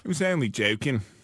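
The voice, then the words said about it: Put-on Australian accent. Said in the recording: “What are you, Dick Van Dyke?... I do a good Australian accent.”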